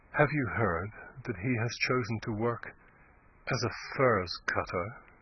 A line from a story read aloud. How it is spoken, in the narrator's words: she said, in a low, mournful voice